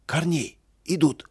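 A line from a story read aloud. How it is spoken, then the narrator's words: Frightened shout. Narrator (Russian): Испуганно закричал он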